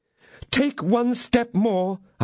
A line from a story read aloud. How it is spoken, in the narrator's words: I cried